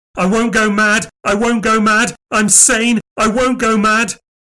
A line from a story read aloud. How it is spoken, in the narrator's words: He began to scream